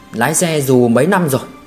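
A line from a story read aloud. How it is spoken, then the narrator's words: Plain. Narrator (Vietnamese): Diệp Hy hỏi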